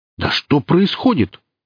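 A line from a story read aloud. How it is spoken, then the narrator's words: Bandits exclaiming in unison. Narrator (Russian): в один голос воскликнули бандиты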